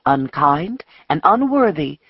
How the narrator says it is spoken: murmured the preacher

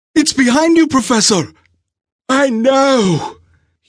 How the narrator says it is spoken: he cried out, his breathing labored

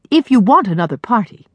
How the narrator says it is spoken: Susanna snapped, tart from sleepiness

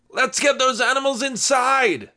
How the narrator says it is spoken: his uncle shouted from the farm

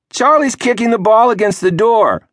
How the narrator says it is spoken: the Squid shouted

